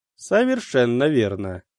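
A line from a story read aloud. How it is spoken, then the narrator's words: Dry agreement. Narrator (Russian): сухо кивнул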